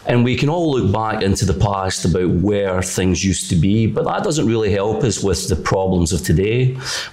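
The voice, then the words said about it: Scottish accent. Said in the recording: “you could probably tell from my accent, I'm from Scotland”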